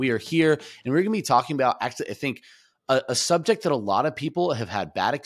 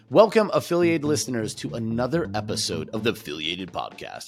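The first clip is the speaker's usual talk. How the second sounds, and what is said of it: Weird put-on voice. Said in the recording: “I made a weird voice for no reason at all”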